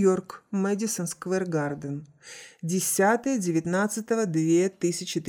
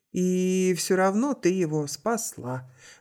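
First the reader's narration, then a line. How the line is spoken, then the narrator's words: Sighing. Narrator (Russian): вздохнул Август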